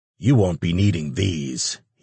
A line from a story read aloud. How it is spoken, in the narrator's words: he growled